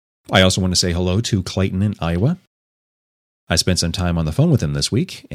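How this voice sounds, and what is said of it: Congested voice from a cold. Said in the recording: “As you might be able to tell from my voice, I have a bit of a cold,”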